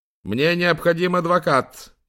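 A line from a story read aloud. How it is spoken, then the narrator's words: Shouting. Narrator (Russian): крикнул ему Гарза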